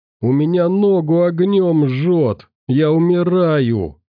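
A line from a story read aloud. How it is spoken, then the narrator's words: Moaning in pain. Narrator (Russian): стонал Толян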